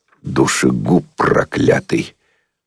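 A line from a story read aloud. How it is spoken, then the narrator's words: Muttered through clenched teeth. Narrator (Russian): процедил сквозь зубы какой-то помятый человек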